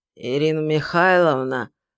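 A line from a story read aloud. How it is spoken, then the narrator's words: Creaky voice. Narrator (Russian): проскрипел он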